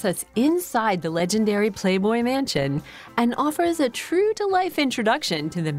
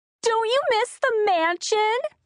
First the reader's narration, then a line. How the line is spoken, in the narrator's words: squealed a round-faced, wholesome-looking 20-something girl in a high-pitched voice